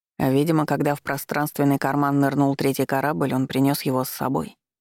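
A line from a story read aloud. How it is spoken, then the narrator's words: Calm reply. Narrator (Russian): спокойно ответил Гийом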